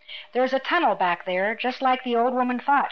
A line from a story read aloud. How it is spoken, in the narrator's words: she said cheerfully